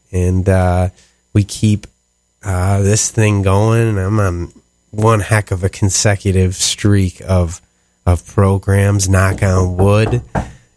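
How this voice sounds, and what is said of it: Sniffly, more nasal voice than usual. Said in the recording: “I'm a little sniffly here ... you can probably hear it in my voice, nasalier than usual. I am kind of nasally to begin with, but definitely a little nasalier than usual”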